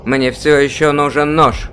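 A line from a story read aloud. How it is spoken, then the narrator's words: Said loudly. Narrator (Russian): громко говорит он группе людей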